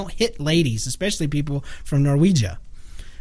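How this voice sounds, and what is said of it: Usual voice. Nothing is said of it.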